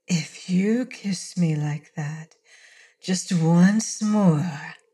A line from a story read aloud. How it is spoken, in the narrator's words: she breathed